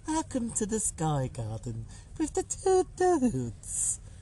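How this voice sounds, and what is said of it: Creepy voice. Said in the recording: “that's creepy voice”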